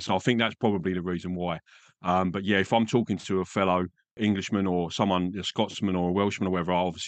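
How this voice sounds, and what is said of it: English accent. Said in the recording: “They can normally tell from the accent anyway. I haven't picked up any kind of Australian accent ... This is my accent”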